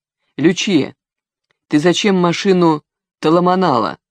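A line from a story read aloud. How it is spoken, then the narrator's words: Stern question. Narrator (Russian): строго спросил шеф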